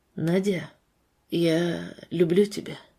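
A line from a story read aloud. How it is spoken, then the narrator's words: Quiet voice. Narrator (Russian): произнес тихим голосом Артур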